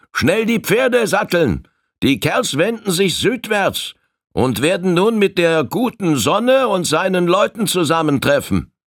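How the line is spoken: Sudden call from above. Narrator (German): Er rief plötzlich von oben herab

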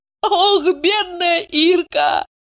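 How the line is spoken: Sobbing. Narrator (Russian): всхлипнула Ева

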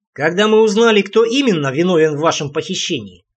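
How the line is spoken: Snorting, amused. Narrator (Russian): хмыкнул Барри

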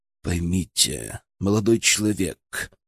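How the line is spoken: Quiet. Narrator (Russian): произнес он тихо

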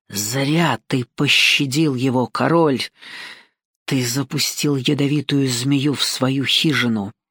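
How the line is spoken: Old woman's menacing hiss. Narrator (Russian): старая знахарка прошипела

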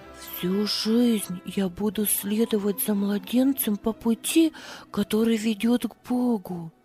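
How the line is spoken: Whisper. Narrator (Russian): шептала она

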